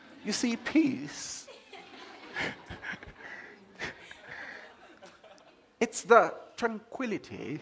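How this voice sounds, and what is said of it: Put-on British accent. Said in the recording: “in a British accent.”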